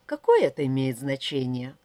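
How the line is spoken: Sighing. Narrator (Russian): вздохнула Вера

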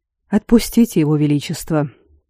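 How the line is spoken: Quiet. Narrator (Russian): тихо сказал Аранвен

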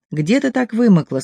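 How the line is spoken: Angry question. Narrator (Russian): спросил сердито

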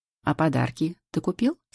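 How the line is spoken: Cheerful question. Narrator (Russian): спрашивает весело Миха

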